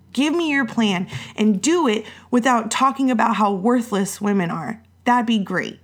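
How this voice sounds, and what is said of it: Frustrated, anxious tone. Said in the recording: “as you can tell in my voice, my level of frustration, my anxiety has gone up”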